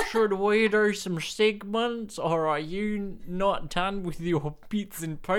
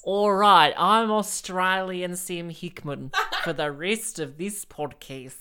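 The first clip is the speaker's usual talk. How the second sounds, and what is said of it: Attempted Australian accent, sounds South African. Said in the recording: “I think that might be South African”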